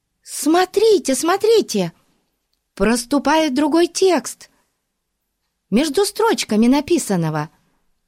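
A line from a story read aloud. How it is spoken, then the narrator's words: Excited shriek. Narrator (Russian): возбужденно завизжала Дейзи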